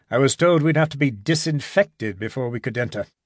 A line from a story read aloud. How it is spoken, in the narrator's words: said Gibson dryly